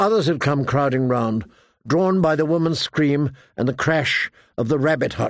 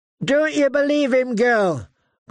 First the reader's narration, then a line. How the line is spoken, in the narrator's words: called out Lark, the sister man, a ranger mean as a cur